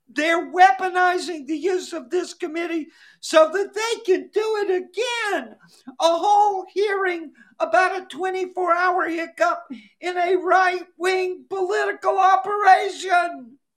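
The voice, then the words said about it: Imitates another person's voice. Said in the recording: “my Sandy Cortez imitation ... She's having a little tantrum. She's stamping her little foot.”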